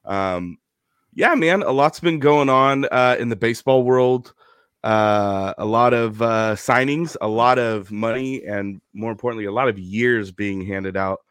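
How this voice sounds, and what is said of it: Sick-sounding voice. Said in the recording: “I'm sick again. In case you couldn't tell by my voice”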